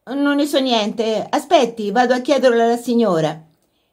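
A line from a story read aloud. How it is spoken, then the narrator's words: Distracted reply. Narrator (Italian): Sadie rispose con tono distratto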